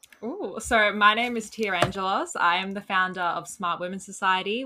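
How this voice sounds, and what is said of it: Australian accent. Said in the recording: “your beautiful Australian accent”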